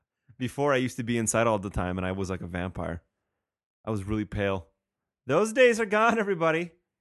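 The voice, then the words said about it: Slightly odd, congested voice. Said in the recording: “my voice is a little weird... remember that cold I talked about last week? It uh, it attacked me”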